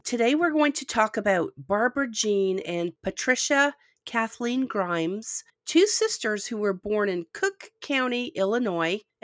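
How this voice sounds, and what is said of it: Croupy voice from a cold. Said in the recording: “I'm getting over a cold. I'm a little croupy, so my voice may go in and out”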